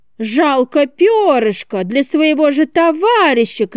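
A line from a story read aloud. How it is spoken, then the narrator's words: Shouting. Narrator (Russian): кричал Федя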